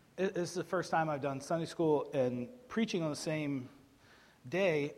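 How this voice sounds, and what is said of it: Hoarse, strained voice. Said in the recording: “I'm losing my voice a little bit.”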